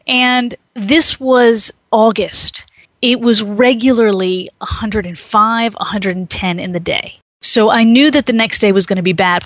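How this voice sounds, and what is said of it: Slight South Carolina accent. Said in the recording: “I live in South Carolina, if you haven't been able to tell from the slight accent.”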